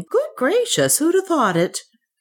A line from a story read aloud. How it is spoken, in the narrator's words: His wife, an active little woman, exclaiming